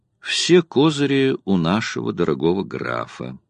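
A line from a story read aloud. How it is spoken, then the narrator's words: Calm reply. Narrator (Russian): спокойно ответил Герланд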